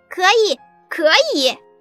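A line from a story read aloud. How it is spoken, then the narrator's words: Loud. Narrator (Chinese): 小羊大声说道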